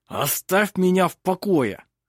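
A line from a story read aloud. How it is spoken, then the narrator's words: Hissed through clenched teeth. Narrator (Russian): прошипел Хейке сквозь сжатые зубы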